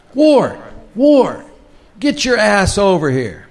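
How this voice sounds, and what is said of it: Yelling, loud shouted voice. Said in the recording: “He's yelling my name.”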